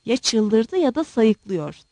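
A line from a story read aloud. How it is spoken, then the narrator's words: Muttering. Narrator (Turkish): diye mırıldandı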